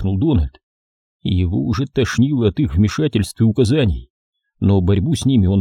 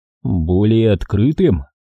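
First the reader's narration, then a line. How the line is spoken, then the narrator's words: Skeptical snort. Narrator (Russian): Дональд хмыкнул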